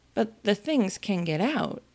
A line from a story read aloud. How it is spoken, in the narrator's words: Alice gently remarked